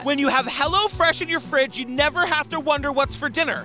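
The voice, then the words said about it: Loud, aggressive yelling delivery. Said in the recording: “I'm yelling. I feel like I'm being very aggressive.”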